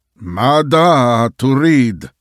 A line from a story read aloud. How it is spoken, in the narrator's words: he shouted angrily from his bed